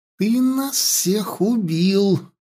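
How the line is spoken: Hissing female elf. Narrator (Russian): раздалось шипение серой эльфийки

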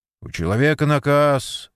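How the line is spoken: Stern. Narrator (Russian): строго сказал Степан

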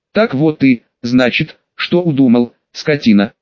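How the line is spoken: Angry, through gritted teeth. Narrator (Russian): Сквозь зубы процедил Йозеф

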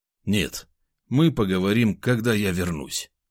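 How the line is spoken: Calm voice. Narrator (Russian): спокойным голосом ответил я

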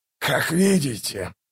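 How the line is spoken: Contemptuous hoarse wheeze. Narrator (Russian): прохрипел он, презрительно

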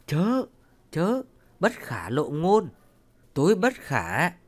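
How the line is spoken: Frightened. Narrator (Vietnamese): Ông Cửu ra dáng sợ hãi, nói

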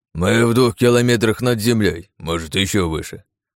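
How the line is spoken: General snorting. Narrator (Russian): фыркнул генерал

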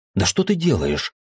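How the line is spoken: Indignant question. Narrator (Russian): возмущенно спросил я

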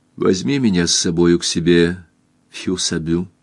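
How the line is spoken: Quiet. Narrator (Russian): тихо сказала Кристин

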